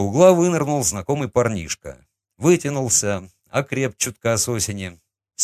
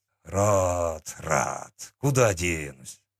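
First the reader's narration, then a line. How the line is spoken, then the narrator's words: Grumbled. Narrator (Russian): буркнул он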